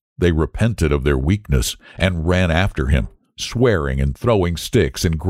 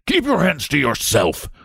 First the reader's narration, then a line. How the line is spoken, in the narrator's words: the saloonkeeper had roared, dancing with fury